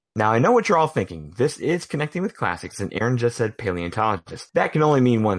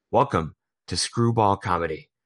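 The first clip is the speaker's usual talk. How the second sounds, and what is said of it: Imitates a film character's voice. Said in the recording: “In my best John Hammond voice”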